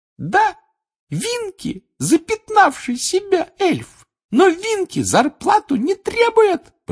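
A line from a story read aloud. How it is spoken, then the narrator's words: Squeaky. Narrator (Russian): пропищала она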